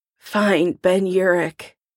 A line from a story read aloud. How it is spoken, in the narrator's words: rasping